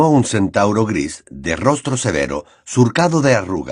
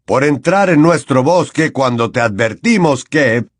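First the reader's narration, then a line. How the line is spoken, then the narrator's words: Snapped. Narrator (Spanish): le espetó Bane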